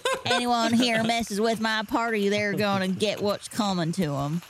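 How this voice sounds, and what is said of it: Put-on southern accent. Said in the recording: “all of a sudden I'm talking with a southern accent.”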